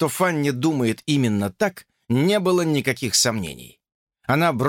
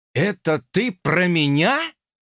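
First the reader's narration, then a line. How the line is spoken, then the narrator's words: Breathed, bewildered. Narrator (Russian): выдохнул сбитый с толку Джордж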